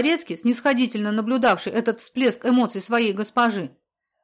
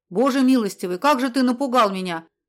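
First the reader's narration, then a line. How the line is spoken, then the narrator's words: Exclaiming lady. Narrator (Russian): воскликнула ее светлость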